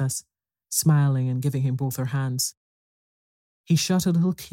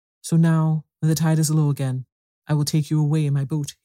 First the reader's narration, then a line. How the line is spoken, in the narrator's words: he said